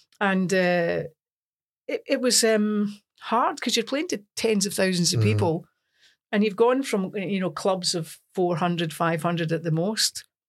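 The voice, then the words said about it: Broad Scottish accent. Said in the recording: “in a broad Scots accent”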